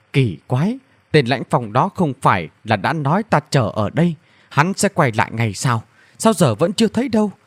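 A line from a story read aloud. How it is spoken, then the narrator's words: Sudden whisper. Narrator (Vietnamese): Thần Nam đột nhiên thì thầm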